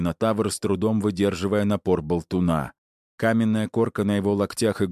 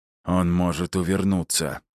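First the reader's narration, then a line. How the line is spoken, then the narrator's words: Growled in reply. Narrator (Russian): прорычал я в ответ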